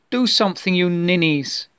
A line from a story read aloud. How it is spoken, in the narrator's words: shouted